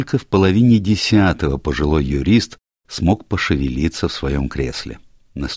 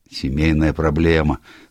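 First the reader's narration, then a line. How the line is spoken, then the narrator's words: Sigh. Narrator (Russian): вздохнул Энтвисл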